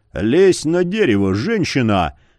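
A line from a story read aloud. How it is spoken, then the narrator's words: Gruff growl. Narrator (Russian): рыкнул Яр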